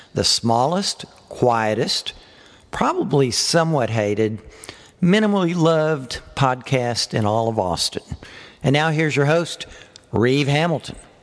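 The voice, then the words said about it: New York accent. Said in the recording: “His New York accent kind of irritates me.”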